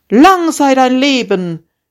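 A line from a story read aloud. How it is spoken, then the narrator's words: Called out, bridegroom. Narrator (German): rief der Bräutigam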